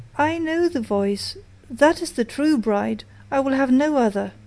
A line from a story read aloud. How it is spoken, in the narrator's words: he sprang up and cried